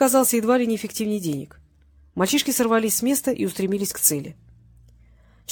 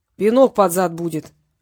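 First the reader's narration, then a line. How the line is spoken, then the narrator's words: Deep bass voice. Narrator (Russian): пробасил Петренко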